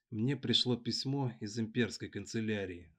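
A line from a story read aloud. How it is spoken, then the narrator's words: Plain. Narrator (Russian): сказала девушка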